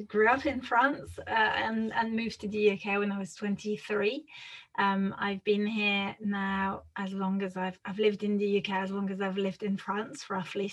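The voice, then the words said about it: French accent. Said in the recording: “my accent is interesting because I'm French.”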